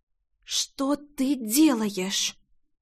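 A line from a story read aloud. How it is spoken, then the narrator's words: Hissed. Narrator (Russian): Зашипела ему Рейна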